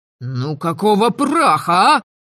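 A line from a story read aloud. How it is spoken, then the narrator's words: Vexed howl. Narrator (Russian): Раздосадованно взвыл Мелисандр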